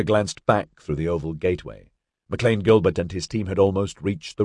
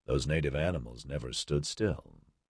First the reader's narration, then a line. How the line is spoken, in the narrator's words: he murmured